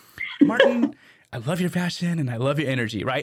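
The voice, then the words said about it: Impression of a former boss. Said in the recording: “I'm about to do my Susan Mace impression”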